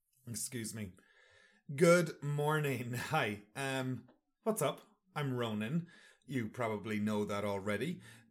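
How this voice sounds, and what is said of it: Hoarse, froggy throat. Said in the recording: “I have a frog in my throat.”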